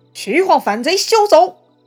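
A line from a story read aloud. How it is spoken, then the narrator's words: Furious shout. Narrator (Chinese): 杨凤是非常愤怒，大喊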